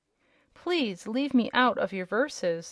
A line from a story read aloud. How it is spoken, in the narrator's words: said Bilbil with a snort of anger